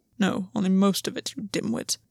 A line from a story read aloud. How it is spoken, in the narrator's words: Gwyn muttered to himself